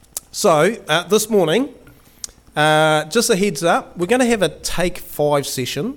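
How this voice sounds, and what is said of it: Slightly hoarse voice. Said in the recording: “excuse my voice. I've just gotten over the COVID, so I'm still a little bit hoarse in the throat area”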